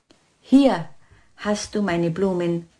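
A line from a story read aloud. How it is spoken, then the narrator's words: Plain. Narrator (German): sagte er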